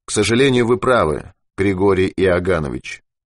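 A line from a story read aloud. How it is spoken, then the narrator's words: Cold agreement. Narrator (Russian): холодно согласился Ермаков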